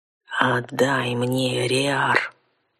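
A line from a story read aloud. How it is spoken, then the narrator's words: Rude growl. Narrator (Russian): Куда менее любезно прорычал мужик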